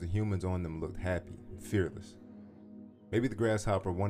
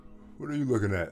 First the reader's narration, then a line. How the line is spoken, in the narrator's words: said as it yawned and stretched